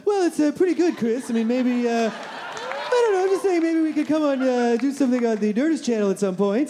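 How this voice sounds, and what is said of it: Imitates another person's voice. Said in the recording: “fantastic Kevin McDonald impression”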